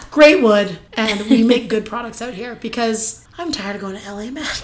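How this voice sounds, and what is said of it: Raspy, husky voice. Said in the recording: “raspy voice... very sexy... Raspy. I have a very sexy voice.”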